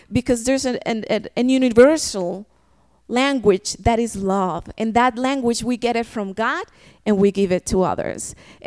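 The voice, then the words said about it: Non-native English accent. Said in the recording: “my accent for them wasn't a problem. My English sometimes is broken.”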